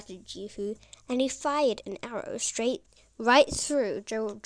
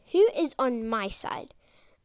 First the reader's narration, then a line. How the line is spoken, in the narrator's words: Jehu shouting up